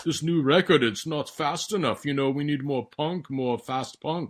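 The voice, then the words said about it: Put-on German accent. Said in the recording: “how amazing that accent was... I probably have the third best German accent in the band”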